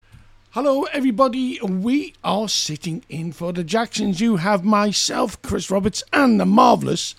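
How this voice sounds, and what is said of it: Hoarse, froggy throat. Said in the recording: “Have you got a froggy throat? ... I've got a frog in my throat.”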